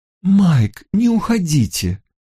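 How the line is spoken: Pleading. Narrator (Russian): взмолилась Клара Фокс

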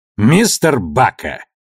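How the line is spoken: Bark from doorway. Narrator (Russian): рявкнул от дверей Ашфорд

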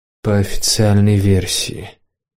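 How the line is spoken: Thoughtful mutter. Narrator (Russian): раздумчиво пробормотал Семироль

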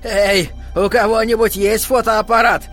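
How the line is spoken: Old man shouting. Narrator (Russian): старый седой Джон Ли Фровин крикнул

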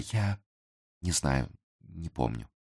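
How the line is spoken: Weak voice. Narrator (Russian): слабым голосом произнесла

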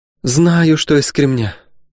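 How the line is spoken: Woman sighing. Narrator (Russian): вздохнула госпожа средняя, она же Добра, то есть Добронега Вольховна

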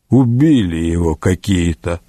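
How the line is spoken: Grumbling. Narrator (Russian): проворчал сосед Петерлина Гунтер фон Бишофсгейм

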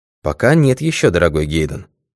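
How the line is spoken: Calm objection. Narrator (Russian): спокойно возразил сыщик

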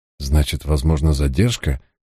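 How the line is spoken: Dejected inquiry. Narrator (Russian): уныло осведомился я

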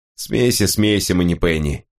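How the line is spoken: Grumbled. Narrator (Russian): проворчал Давид

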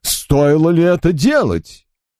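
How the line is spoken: Daughter's laughing exclamation. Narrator (Russian): дочь ее со смехом воскликнула

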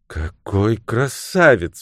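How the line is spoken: Delighted exclamation. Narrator (Russian): воскликнула девушка

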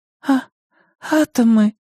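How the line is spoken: Trembling schoolgirl's voice. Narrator (Russian): дрожащим голосом выдавила школьница

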